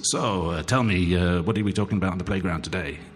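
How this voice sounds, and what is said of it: Mock radio presenter voice. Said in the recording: “with that kind of radio voice”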